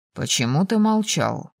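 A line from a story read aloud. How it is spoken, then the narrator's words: Muffled question. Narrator (Russian): глухо спросил Райан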